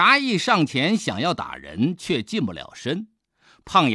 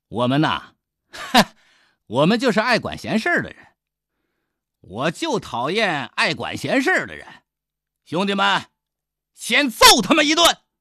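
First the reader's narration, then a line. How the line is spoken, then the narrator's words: Smiling. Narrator (Chinese): 刘景笑了笑说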